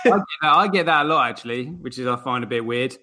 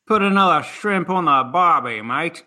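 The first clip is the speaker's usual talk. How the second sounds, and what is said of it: Weak put-on Australian accent. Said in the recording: “who can do the Australian accent ... What was that, Irish, was it? ... that was my Australian accent.”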